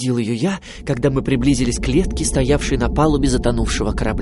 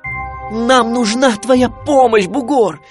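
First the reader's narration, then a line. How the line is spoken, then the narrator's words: Nearly shouting. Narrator (Russian): почти кричал я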